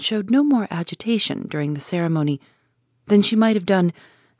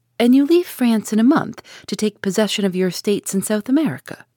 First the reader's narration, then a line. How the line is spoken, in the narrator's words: she asks